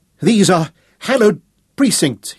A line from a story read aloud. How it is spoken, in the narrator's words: he cried in a surprisingly clear and strong voice